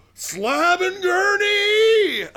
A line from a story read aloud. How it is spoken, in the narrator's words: you just hear him yelling